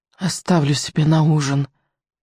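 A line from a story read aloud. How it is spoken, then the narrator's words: Sleepy hiss. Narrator (Russian): сонно прошипела она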